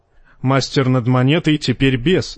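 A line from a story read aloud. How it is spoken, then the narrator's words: Plain. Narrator (Russian): сказал капитан ворот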